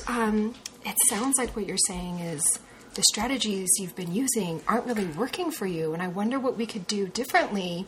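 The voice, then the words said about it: Gentle, soothing therapist voice. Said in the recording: “gently, in a therapist way ... super nice ... Are you trying to do your therapist voice now? ... nice therapist”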